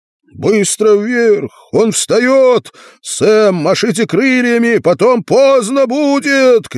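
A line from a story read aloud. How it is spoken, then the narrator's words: Shouted. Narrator (Russian): кричал Артур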